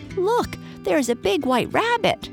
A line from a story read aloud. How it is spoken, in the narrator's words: cried a squeaky voice